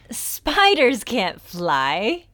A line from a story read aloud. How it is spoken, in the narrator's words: they laughed at her and said